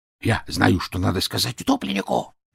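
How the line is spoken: Whispered. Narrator (Russian): зашептала собака

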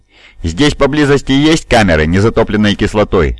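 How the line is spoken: Barked. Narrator (Russian): рявкнул инквизитор

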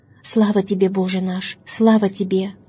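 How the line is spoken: Sighing. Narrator (Russian): Вздыхал отец

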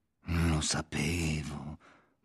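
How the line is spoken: Murmur. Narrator (Italian): mormorò

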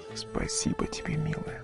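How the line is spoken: Man's quiet whisper. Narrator (Russian): Тихо прошептал мужчина

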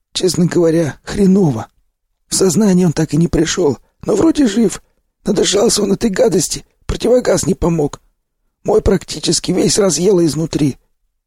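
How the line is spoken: Hoarse voice. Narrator (Russian): поведал мне сиплый

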